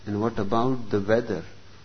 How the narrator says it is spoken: asked the bishop

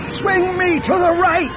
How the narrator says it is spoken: He yelled

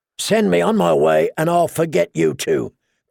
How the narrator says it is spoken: Clegane rasped

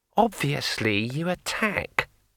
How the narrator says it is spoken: said Kring scornfully

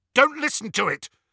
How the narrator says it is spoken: said harshly

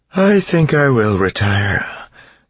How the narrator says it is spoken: Vin said, yawning

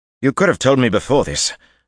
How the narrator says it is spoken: Gawain said roughly

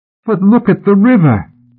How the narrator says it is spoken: Tom cried innocently

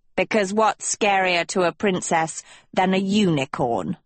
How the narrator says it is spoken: snarled Manly

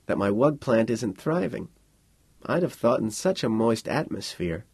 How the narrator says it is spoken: Milt murmured

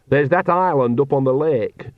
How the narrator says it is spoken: she went on, raising her voice

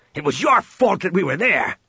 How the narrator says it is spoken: Han growled at him

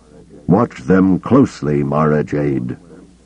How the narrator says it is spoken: Kabal said from where he stood at the top of the steps, his voice hard yet strangely wistful

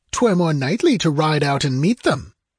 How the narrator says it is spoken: snapped the count

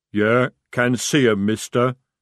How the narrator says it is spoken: he rumbled

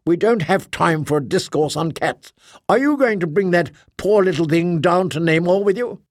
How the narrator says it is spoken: said Kaphira Kay, irritably

